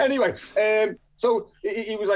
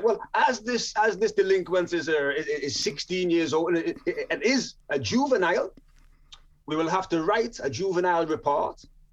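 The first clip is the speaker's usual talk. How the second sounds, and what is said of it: Poor put-on Jamaican accent. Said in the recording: “forgive my awful accent ... my Jamaican accent's awful”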